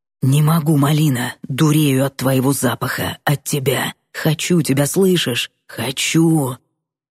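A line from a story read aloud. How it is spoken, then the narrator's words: Whispered. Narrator (Russian): зашептал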